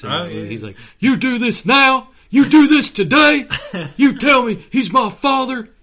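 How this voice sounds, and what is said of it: Imitates another person's voice. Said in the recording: “to do my Keanu Reeves voice”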